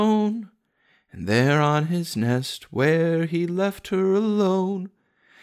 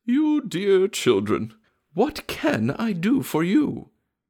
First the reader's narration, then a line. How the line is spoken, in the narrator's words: after she had piped away for 2 or 3 minutes, she said